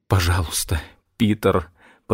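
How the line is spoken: Whisper. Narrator (Russian): прошептал он

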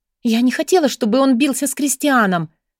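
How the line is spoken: Agitated interruption. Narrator (Russian): взволнованно прервала его Бри

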